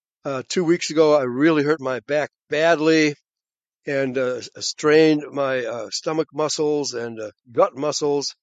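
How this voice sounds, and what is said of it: Hoarse voice. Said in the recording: “I'm still kind of hoarse.”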